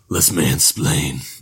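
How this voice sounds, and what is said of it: Imitates Batman's voice. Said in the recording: “Now you're Batman. ... impersonations.”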